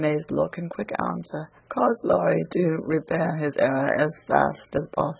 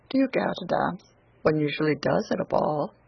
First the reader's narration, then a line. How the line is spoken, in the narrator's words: he said in a perfectly tranquil tone